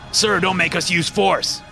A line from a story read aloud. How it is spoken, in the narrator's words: the officers yelled